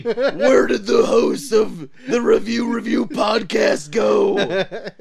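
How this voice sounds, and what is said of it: Spot-on cartoon villain character voice. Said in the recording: “I think I have a pretty good Goldar impression. ... It was pretty spot on.”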